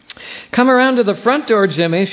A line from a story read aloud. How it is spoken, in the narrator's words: she shouted